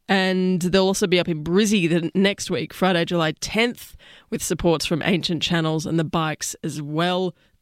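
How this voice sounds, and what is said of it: Voice affected by a cold. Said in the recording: “I'm getting over a cold, so my voice is a bit awry this week”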